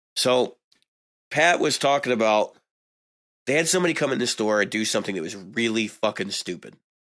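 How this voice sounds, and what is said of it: Strained, failing voice. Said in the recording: “I'm not feeling well ... losing my voice”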